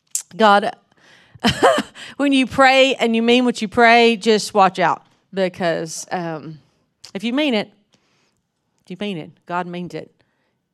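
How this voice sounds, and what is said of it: Southern US accent. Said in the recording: “This is my real accent. This is really how I talk. ... They just never met a Southerner before. ... I grew up in North Mississippi.”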